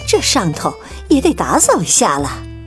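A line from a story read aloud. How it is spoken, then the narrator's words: Muttering. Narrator (Chinese): 妈妈嘀咕着说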